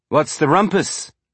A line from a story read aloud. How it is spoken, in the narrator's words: Fayez asked